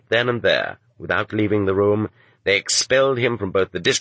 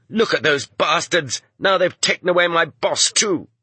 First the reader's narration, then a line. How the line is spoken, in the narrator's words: The merchandise manager shouted